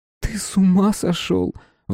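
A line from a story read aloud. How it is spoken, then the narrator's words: Startled mother's exclamation. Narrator (Russian): воскликнула мама, когда он взахлеб рассказал ей об увиденном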